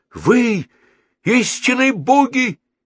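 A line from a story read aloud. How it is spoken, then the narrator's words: Exclamation. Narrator (Russian): воскликнул Геннадий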